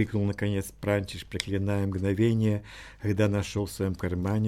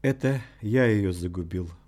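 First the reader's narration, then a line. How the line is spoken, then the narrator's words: Muffled, hollow. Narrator (Russian): глухо произнес лётник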